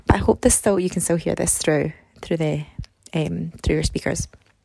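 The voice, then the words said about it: Soft whispering. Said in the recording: “I'm whispering a little bit”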